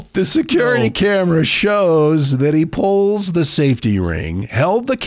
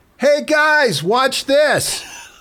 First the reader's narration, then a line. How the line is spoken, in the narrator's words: smiles, and yells